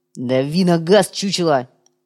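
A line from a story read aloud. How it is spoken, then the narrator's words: Barked order. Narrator (Russian): рявкнул уйбуй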